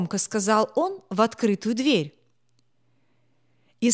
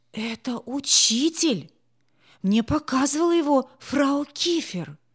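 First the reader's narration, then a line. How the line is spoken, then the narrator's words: Frightened whisper. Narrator (Russian): испуганно прошептал Гарри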